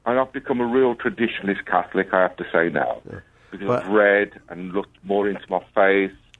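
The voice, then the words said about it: Italian speaker, urban English accent. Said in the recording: “an Italian with an urban English accent”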